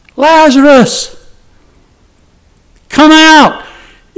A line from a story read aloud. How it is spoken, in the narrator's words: Jesus cried with a loud voice